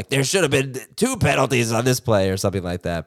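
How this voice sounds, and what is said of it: Imitates another person's voice. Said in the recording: “nice Collinsworth impersonation... They say I do a good Collinsworth.”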